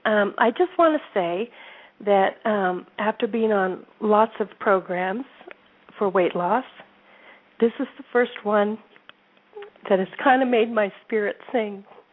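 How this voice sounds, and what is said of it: Choked-up, emotional voice. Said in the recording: “I'm kind of getting choked up by that ... I'm sorry for getting choked up.”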